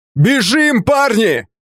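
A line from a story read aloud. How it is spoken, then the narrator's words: Shouted. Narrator (Russian): крикнул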